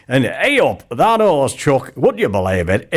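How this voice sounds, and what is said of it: Poor put-on regional accent. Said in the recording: “a really poor impersonation of an accent ... that was a poor impersonation of an accent”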